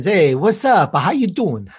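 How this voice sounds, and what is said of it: Put-on New York accent. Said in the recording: “A little New York in there too.”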